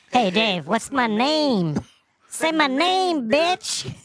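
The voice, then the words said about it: Cartoon character voice. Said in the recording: “My cartoon voice.”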